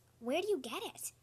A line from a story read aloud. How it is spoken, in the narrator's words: Bean whispered